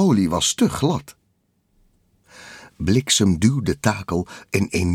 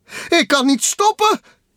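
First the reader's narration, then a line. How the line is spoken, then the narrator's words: Shouting. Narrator (Dutch): schreeuwde hij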